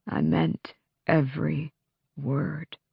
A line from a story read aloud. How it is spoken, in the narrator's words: Lorkin said softly